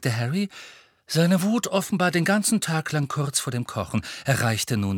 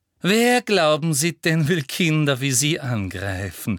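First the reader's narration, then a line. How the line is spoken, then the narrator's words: Honey-sweet question. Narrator (German): fragte Professor Umbridge mit honigsüßer Stimme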